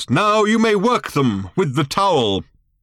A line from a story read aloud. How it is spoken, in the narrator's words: exclaimed old Thrashbarg at last